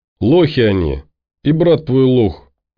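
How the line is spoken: Gleeful summing up. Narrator (Russian): радостно подытожил Сергуня

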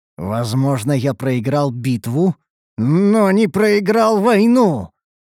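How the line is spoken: Through gritted teeth, in pain. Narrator (Russian): Процедил, пережимая сосуды поврежденной руки

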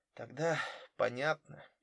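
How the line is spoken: Sad. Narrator (Russian): печально произнесла Рэйчел

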